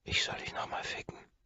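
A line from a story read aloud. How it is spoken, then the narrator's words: Whispered in ear. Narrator (German): flüstere ich ihr ins Ohr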